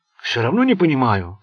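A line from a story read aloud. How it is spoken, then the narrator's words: Muttering. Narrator (Russian): пробормотал охранник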